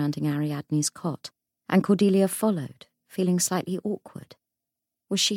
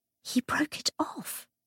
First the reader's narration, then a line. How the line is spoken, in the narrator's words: Cordelia whispered